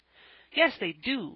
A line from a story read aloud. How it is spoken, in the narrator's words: snapped out Van